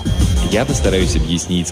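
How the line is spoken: Plain. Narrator (Russian): сказал мистер Стюарт

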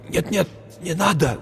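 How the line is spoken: Breathless whisper. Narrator (Russian): Задыхаясь, прошептал Хэтэуэй

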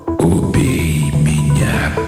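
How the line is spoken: Hoarse sleepy male whisper. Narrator (Russian): произнес мужской голос хриплым сонным шепотом

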